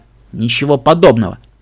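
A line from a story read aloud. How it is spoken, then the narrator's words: Rough and sharp. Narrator (Russian): Получилось грубовато и резко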